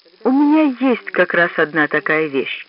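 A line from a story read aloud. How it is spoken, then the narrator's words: Sighing. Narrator (Russian): Лукашин вздохнул и сказал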